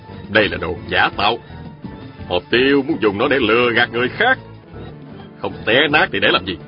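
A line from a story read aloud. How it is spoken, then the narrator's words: Cold smile, then said. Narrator (Vietnamese): Mai Kiếm Hòa cười nhạt rồi nói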